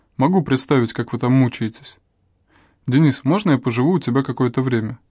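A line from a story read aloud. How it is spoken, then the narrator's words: Plain. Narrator (Russian): спросил мужчина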